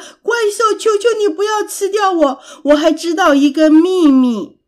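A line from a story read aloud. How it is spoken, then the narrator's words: Loud shout. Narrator (Chinese): 艾利克斯大声的喊着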